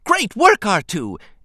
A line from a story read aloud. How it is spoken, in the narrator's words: Anakin shouted excitedly